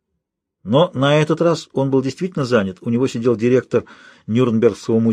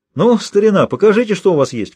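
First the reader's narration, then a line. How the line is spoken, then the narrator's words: Shouted. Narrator (Russian): крикнул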